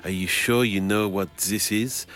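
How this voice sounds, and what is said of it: Put-on French accent. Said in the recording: “you're doing the accent, are you?”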